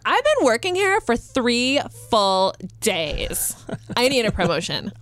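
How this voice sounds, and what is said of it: Valley Girl accent. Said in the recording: “my millennial accent is the same as if I was doing a Valley Girl accent.”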